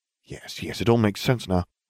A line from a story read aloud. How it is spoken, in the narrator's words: I muttered